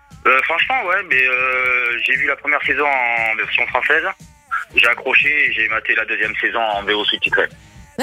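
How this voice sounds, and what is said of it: Noticeable regional French accent. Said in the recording (French): “ce bel accent”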